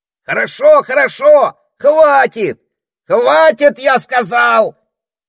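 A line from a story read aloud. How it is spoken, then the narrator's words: Parrot yelling over noise. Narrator (Russian): заорал попугай, пытаясь перекричать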